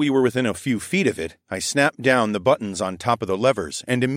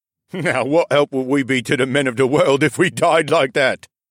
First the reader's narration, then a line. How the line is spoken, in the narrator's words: The guard laughed heartily